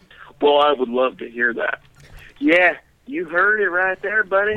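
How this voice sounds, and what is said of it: Imitates another person's voice. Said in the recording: “my Zach impression”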